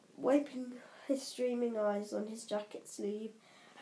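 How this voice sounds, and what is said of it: Usual voice. Nothing is said of it.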